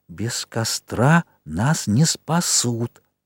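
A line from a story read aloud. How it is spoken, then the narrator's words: Emphatic whisper. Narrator (Russian): Хрюша шепнул с нажимом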